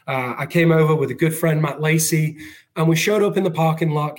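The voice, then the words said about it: Mixed English and American accent. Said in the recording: “this weird accent of English, American”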